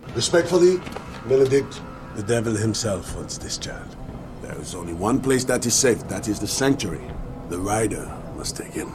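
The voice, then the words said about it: Vague European accent, poorly done. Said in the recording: “what accent is it? Terrible. ... it's French, right? I think it's French. ... it goes into Greek sometimes ... That's a very international accent that he got. ... it's all over Europe. ... it just says Eastern Europe.”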